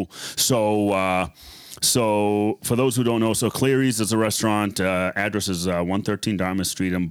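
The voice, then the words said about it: Boston accent. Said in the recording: “My Boston accent's coming out. Dartmouth.”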